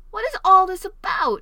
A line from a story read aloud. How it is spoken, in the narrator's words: he exclaimed